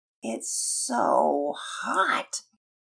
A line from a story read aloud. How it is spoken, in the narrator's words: Pearson moaned